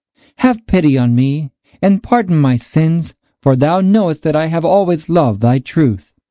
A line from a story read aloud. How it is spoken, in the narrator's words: cried